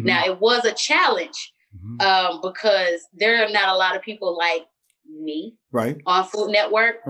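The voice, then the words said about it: Loud voice with country twang. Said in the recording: “I'm very loud. ... I talk a little different. I got a country twang. I'm from Philly, but Atlanta is all up inside of me.”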